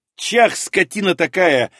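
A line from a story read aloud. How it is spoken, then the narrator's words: Silent inner yell. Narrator (Russian): мысленно завопил я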